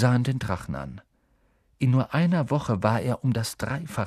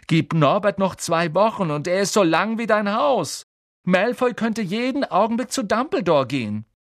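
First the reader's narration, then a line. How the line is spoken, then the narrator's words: Loud speech. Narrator (German): sagte Harry laut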